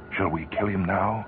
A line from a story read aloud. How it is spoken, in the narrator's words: He whispered to Peters